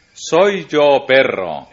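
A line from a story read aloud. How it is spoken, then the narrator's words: Exclaiming. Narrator (Spanish): exclamó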